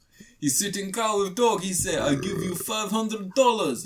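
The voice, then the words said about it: Vague put-on Russian accent. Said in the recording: “speaks a bit like this. It's a bit ambiguous Russian accent, kind of.”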